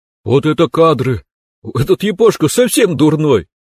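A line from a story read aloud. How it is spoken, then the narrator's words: Joyful shout. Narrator (Russian): Радостно прокричал мне в лицо Ли на русском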